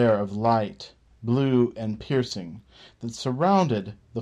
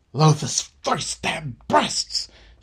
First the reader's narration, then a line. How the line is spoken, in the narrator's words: yelled